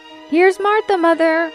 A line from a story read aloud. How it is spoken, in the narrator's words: cried the 2 young Cratchits